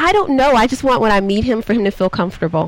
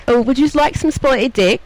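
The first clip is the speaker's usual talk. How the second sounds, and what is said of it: Put-on British accent. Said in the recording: “I actually practice my British accent all the time ... mine is very silly ... That was very cute”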